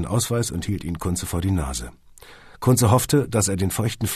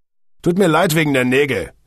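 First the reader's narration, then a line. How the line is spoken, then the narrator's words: Snapped. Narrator (German): schnauzte der Polizist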